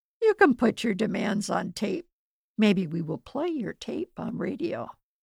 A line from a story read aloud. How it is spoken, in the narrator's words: AVO men laughed and replied